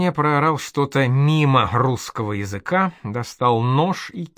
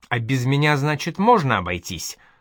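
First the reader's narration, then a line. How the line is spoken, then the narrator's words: Angry question. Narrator (Russian): зло спросил Проня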